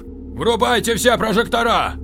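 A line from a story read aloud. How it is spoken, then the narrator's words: Shouting into radio. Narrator (Russian): закричал он в рацию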